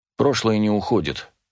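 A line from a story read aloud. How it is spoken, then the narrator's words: Quiet speech. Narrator (Russian): тихо сказал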